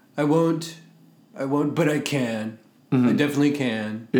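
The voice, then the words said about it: Imitates another person's voice. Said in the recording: “my Trump impersonation is probably not the greatest.”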